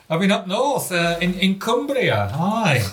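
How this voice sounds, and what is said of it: Poor put-on northern English accent. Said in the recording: “What kind of an accent was that? ... I didn't cross the Pennines, so that was a terrible accent.”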